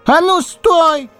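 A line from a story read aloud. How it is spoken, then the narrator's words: Yelled at full strength, cut off. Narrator (Russian): заорал, что есть мочи лис, и вдруг осекся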